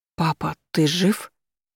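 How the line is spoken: Strained, forced out. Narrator (Russian): Вот и все, что мне удалось из себя выдавить

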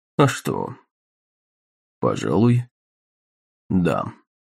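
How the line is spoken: Quiet, surprised. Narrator (Russian): проговорил негромко Рерден, удивившись тому, что такая мысль еще не приходила ему в голову

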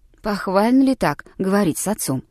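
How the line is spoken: Gentle reproach, old man. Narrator (Russian): мягко упрекнул его старик Тароттер

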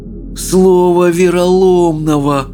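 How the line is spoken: Groaning. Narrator (Russian): простонал Рыбий Ног

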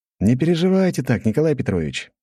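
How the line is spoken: Cheerful. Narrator (Russian): весело произнес я

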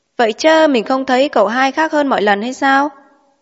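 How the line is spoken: Loud laughing question. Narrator (Vietnamese): Thị Tố cười, hỏi lớn tiếng rằng

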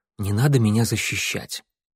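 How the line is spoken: Mutter. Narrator (Russian): он пробормотал

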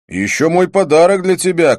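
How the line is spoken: Shout. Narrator (Russian): крикнул я

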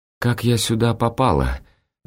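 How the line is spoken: Timid, fearful question. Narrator (Russian): робко спрашивает Анна, словно страшась услышать ответ

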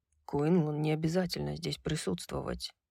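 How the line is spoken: Quiet. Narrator (Russian): тихо сказал Хант

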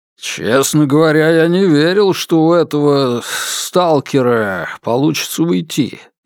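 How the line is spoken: Grumbling. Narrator (Russian): заворчал он

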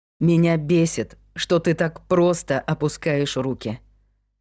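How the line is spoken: Plain. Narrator (Russian): сказал мне Майк

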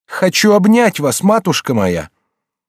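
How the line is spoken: Crying out. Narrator (Russian): Молодая женщина вскрикнула

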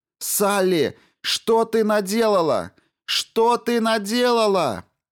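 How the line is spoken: Yelling through headphones. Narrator (Russian): вопил в наушниках голос напарницы

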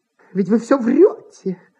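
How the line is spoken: Tearful voice. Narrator (Russian): сказала плачущим голосом

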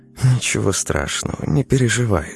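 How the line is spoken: Female whisper. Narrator (Russian): шепнула она

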